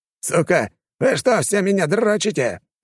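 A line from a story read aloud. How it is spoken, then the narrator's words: Yelling. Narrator (Russian): заорал Леня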